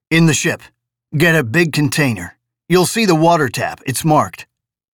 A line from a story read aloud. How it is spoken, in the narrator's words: Roughly said